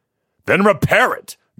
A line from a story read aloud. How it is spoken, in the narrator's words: Jonathan shouted